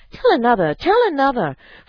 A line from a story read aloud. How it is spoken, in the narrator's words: the children cried